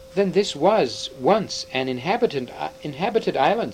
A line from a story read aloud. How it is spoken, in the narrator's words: said Peter